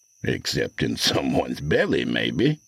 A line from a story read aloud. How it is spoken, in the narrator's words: Casp chuckled